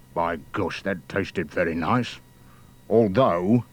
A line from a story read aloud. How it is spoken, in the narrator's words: the giant mutter twice